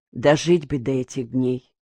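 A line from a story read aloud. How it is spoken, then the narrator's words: Sighing. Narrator (Russian): вздохнула Лена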